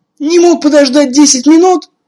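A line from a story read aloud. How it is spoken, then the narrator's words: Shouting. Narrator (Russian): кричала сестра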